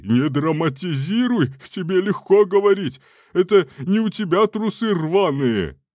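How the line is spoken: Yelling. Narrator (Russian): Заорал Пацация

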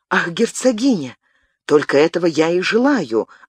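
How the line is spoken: Exclamation. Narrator (Russian): воскликнул Габриэль

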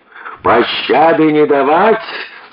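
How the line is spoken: Shouted in reply. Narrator (Russian): словно в ответ крикнул

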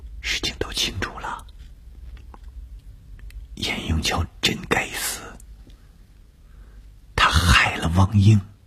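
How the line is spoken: Soft-spoken. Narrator (Chinese): 董峰轻声地说

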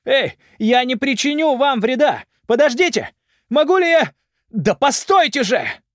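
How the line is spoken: Shouting after someone. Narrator (Russian): Даик кричал ему вслед

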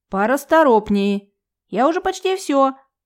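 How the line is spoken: Shouted reply. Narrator (Russian): Прокричала в ответ

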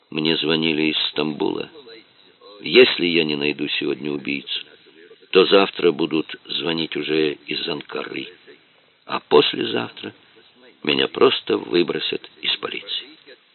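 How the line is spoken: Quiet. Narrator (Russian): тихо сказал

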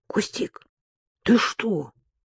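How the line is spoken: Startled, just woken. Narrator (Russian): испуганно дернулась Маша, тотчас проснувшись

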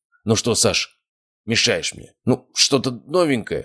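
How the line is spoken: Irritated reply. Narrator (Russian): раздраженно ответил мэтр

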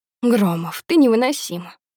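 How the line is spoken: Irritated woman, tongue click. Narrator (Russian): Она раздражённо цокает языком

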